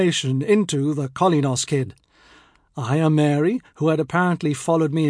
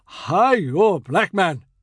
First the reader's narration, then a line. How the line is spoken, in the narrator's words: in his booming steamship's voice